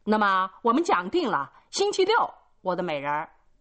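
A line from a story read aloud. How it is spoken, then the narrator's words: Laughing call. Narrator (Chinese): 他也总是笑着叫道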